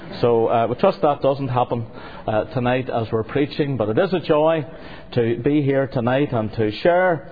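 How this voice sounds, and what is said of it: Voice strained by cold, sore throat. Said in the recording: “I've had a cold and sore throat all week”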